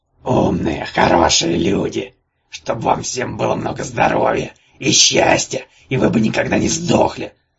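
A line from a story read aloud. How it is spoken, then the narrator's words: Angry yelp. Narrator (Russian): сердито ойкнул Кикимор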